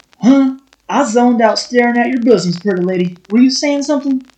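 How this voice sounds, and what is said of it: Obnoxious southern hillbilly accent. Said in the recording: “obnoxious, southern accent hillbilly guy”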